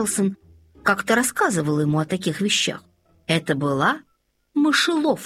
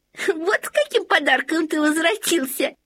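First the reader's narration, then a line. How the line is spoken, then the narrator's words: Giggle. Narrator (Russian): хихикнула Лоттен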